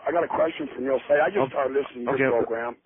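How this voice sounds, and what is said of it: Impaired, strained speaking voice. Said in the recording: “Excuse my voice. I'm having a throat surgery here pretty quick.”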